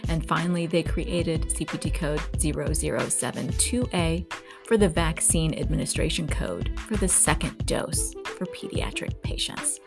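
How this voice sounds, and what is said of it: Squeaky, scratchy sick voice. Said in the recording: “my voice is a bit squeaky and scratchy. But as I said, I am under the weather coming down with something.”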